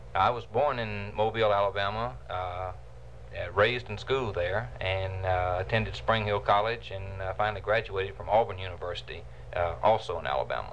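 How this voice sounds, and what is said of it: Slight Southern US drawl. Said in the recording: “I detect just a bit of what we call a southern drawl”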